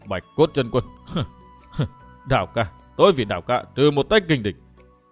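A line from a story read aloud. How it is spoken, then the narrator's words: Fierce old woman muttering. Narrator (Vietnamese): Lão quái bà lộ vẻ hung ác vô tưởng, lẩm bẩm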